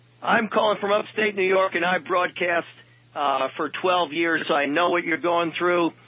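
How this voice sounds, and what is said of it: Polished radio broadcaster voice. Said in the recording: “I can tell you got a good radio voice.”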